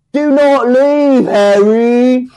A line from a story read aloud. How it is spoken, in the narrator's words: Dudley wailed childishly